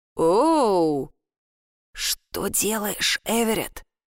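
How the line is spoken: Cautious whisper. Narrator (Russian): спросил я шепотом со всей осторожностью, потому что, кажется, я никогда прежде не видел брата таким

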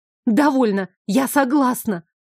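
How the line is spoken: Silent scream. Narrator (Russian): Безмолвно завопила я

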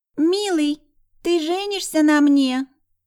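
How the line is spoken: Nasty squeaky falsetto. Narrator (Russian): Противным тоненьким голоском проговорил Райди

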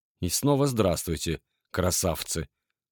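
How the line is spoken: Mutter. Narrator (Russian): пробормотал я

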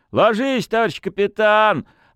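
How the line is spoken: Shouting at full volume. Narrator (Russian): орал во все горло Пантелей

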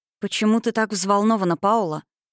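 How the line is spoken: Soft question. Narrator (Russian): мягко спросила она

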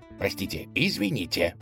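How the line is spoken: Mumbling. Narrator (Russian): бормотал он

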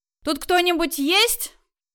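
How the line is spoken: Loud question. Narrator (Russian): громко спросила мама

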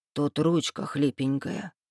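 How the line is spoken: Soft breathy murmur. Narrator (Russian): тихонько выдохнул Кроули

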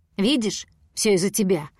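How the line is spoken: Growl. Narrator (Russian): прорычал он

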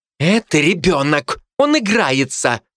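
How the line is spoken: Growl. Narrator (Russian): рыкнула та на меня

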